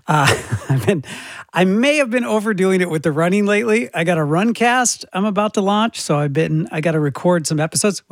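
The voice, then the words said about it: Strained voice, losing his voice. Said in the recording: “losing my voice, and you can probably tell”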